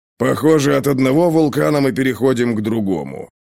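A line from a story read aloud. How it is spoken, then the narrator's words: Grumbling under breath. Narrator (Russian): проворчал себе под нос Ковальский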